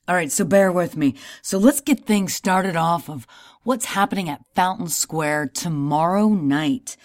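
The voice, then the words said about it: Slightly hoarse voice. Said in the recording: “my voice is a little hoarse tonight ... I screamed my head off”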